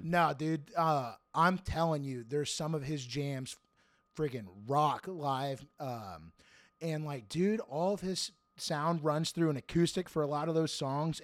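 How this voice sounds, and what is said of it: Hoarse, strained voice. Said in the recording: “I sound a little hoarse... my throat is roasted. I'm super hoarse.”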